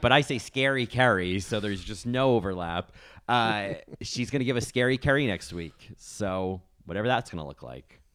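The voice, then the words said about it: New Jersey accent. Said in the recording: “my disgusting New Jersey accent”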